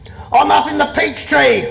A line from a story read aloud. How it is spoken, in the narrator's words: yelled